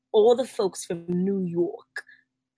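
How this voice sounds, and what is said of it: Put-on New York accent. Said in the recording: “let me change my accent.”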